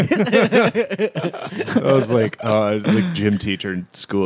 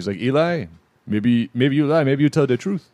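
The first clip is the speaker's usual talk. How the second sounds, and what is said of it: Trinidadian accent imitation. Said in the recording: “spot on Trinidad and Tobago ... accent”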